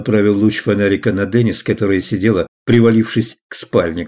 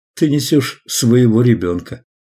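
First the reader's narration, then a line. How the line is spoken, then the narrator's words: Gentle reply. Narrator (Russian): ласково ответил Рэй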